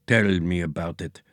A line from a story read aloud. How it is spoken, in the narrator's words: muttered the eggy thingy voice